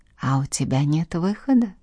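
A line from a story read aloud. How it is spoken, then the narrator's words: Calm remark. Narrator (Russian): спокойно заметил он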